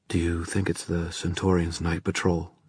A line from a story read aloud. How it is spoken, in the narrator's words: she whispered to Mark